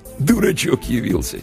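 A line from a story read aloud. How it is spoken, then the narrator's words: Quiet chuckle. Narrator (Russian): тихонько хохотнул один из приятелей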